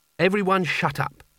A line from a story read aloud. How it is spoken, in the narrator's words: said Kanina firmly